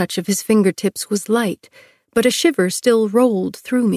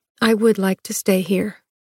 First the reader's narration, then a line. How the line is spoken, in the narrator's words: I said